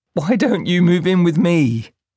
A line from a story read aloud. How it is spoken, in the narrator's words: She yelped